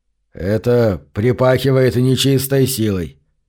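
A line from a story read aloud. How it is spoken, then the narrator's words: Mutter. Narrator (Russian): пробормотал он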